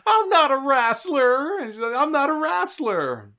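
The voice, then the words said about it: Paul Bearer impression with his accent. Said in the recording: “Paul Bearer with that accent, he's going”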